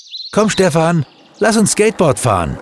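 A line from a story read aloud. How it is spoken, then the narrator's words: Calling from afar. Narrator (German): Er ließ nicht locker und rief schon von Weitem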